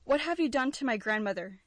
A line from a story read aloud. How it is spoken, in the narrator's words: exclaimed